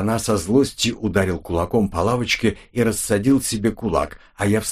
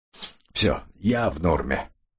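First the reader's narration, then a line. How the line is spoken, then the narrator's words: Calm after exhaling. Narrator (Russian): Молодой граф выдохнул, успокоился и сказал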